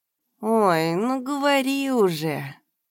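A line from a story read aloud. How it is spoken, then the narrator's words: Drawling. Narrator (Russian): протянул Димка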